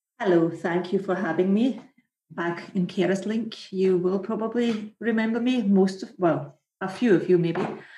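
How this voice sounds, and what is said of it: Foreign accent. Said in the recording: “Do you recognise the accent? ... Here's another foreign accent.”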